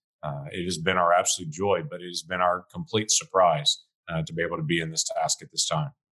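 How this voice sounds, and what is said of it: Deep voice. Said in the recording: “You've got this deep voice.”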